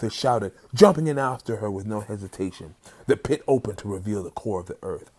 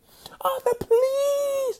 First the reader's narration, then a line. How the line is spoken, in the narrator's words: Myrmidora screamed in horror and desperation